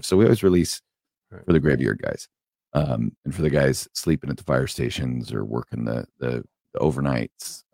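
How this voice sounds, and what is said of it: Wrecked, lower, deep voice. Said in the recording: “my voice is a little wrecked. It's a little bit lower than usual. It's a little Barry White.”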